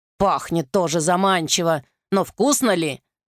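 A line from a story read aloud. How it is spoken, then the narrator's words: Muttered. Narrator (Russian): пробормотал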